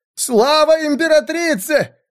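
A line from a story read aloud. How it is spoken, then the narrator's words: Crowd shouting. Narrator (Russian): закричали другие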